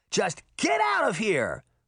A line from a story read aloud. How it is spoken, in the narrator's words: Daphne shouted